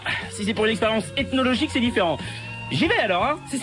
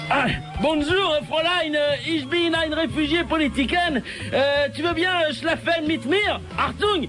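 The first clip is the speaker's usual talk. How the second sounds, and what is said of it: Put-on foreign accent. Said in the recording (French): “tu lui parleras avec un accent étranger, en lui disant qu'il était un réfugié”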